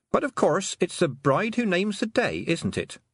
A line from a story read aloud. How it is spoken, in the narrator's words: said Tiffany cheerfully